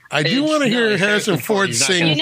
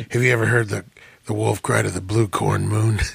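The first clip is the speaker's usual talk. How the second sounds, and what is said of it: Imitates another person's voice. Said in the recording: “my shitty Harrison Ford impersonation”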